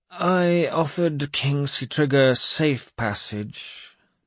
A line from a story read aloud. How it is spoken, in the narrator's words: the king said, his voice sullen